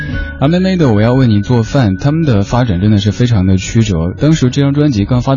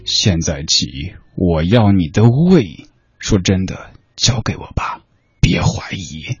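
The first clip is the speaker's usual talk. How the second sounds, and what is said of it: Creepy horror-movie tone. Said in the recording (Chinese): “换一种语气的话...如果这么念...带着口音的...有点恐怖片的感觉”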